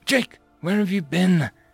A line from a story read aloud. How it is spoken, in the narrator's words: asked again in a shaky tone